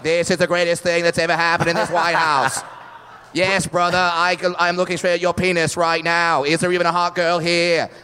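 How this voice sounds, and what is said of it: Kennedy impression. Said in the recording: “a Kennedy impression”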